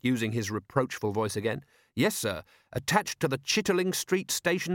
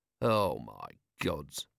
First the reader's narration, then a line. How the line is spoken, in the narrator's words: murmured Vimes